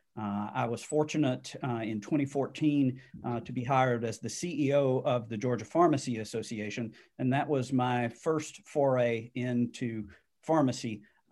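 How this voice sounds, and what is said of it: Southern Alabama drawl. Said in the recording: “You can tell from my drawl, I'm an Alabama native”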